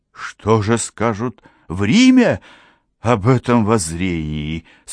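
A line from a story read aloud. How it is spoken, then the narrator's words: Timid, hesitant question. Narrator (Russian): спросил робко и нерешительно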